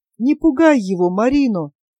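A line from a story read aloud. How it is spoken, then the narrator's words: Hoarse, unusually quiet father. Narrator (Russian): хрипло и непривычно тихо проговорил отец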